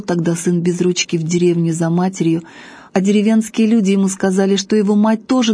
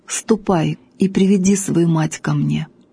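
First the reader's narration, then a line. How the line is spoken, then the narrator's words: Sad commander. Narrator (Russian): полководец печально говорит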